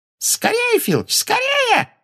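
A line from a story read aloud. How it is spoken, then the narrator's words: Shrill squeal. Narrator (Russian): взвизгнула Амбридж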